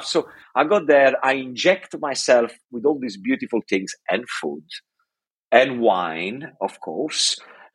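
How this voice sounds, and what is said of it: Italian accent. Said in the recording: “somehow I'm more Italian than when I left ... the accent as well. I don't lose the accent because ... I'm always surrounded by Italian people. I always talk Italian”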